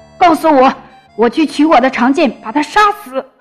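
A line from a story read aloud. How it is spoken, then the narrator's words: Giant roaring. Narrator (Chinese): 巨人吼道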